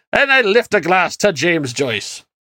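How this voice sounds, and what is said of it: Put-on Irish accent. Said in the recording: “to my friends oh. in the Emerald Isle, I apologize for this accent”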